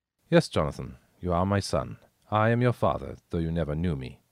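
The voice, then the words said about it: Soft, mannered slight German accent. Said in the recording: “soft and mannered, with a slight German accent”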